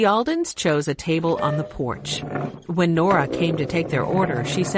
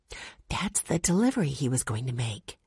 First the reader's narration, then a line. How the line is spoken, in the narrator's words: Jesse whispered to Violet